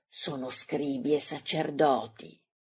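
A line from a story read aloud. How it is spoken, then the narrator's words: Young man, plain. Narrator (Italian): dice il giovane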